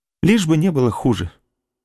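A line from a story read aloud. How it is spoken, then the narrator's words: Cheerful reply. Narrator (Russian): весело отвечала она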